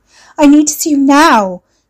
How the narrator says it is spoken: she pleaded

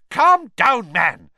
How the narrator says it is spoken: Fudge barked

